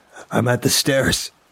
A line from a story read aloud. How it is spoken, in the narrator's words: Brian yelped as he almost fell down